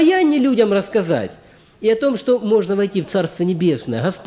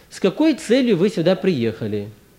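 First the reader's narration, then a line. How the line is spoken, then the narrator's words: Calmer question. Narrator (Russian): пыл у него остыл, и он тогда более уже спокойно спрашивает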